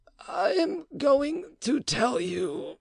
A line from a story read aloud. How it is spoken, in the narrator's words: The Marquis feebly murmured